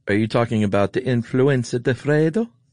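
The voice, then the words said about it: Put-on Italian accent. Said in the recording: “your famous Italian accent”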